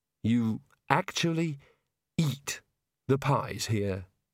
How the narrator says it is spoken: he said mournfully

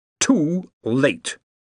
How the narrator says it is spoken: boomed

